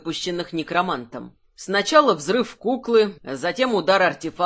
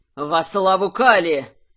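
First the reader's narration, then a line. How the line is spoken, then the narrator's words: Straining yell. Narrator (Russian): заорал Гржак, надсаживаясь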